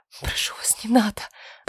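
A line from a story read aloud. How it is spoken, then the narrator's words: Trembling frightened whisper. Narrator (Russian): прошептала я, дрожа всем телом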